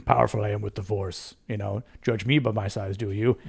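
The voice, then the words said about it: Imitates Yoda's voice. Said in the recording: “good impression”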